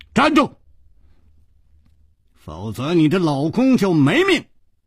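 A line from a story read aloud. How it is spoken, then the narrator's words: Shouted. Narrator (Chinese): 楚留香喊道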